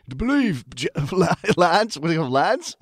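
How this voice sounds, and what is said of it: Deep-voiced put-on English accent. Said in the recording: “in a big, like a deep voice British accent. You have to do an English accent.”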